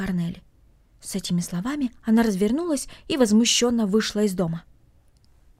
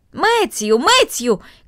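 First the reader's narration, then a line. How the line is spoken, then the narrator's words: Calling out into distance. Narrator (Russian): крикнула она в направлении большой конюшни и амбара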